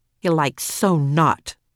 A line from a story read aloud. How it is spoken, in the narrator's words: Max grumbled, right behind her